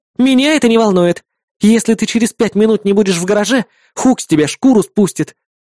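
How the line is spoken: Shrill shriek. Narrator (Russian): взвизгнула она

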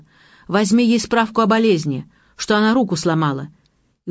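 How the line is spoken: Shouted. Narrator (Russian): прокричал

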